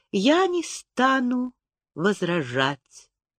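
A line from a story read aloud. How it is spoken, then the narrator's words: Quiet admission. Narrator (Russian): тихо призналась она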